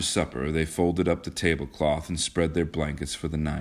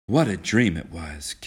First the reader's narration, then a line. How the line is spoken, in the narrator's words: Kismine sighed